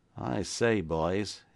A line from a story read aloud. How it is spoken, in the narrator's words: ejaculated the ex-convict with an uneasy laugh, half comic, half bewildered